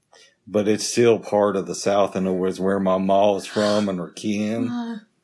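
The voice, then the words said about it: Fake Southern accent. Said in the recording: “Did I slip into my Southern accent again? ... Fake one. ... I did the Southern accent a little bit.”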